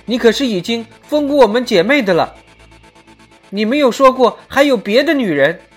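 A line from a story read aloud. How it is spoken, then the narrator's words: Anxious young woman shouting. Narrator (Chinese): 一个小道姑着急的嚷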